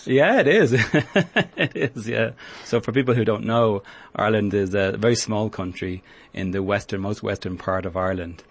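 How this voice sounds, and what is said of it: Irish accent. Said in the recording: “you come from Ireland. I'm sure people can pick up from your accent... You have an accent”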